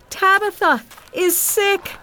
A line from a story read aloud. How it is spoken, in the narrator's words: she cried to the other church people standing nearby